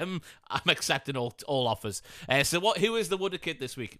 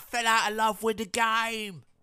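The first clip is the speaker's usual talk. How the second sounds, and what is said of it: Imitates another person's voice. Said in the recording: “that was a really good impersonation of him”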